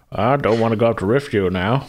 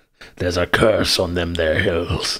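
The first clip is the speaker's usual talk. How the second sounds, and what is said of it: Weird put-on character voice. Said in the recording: “weird voice”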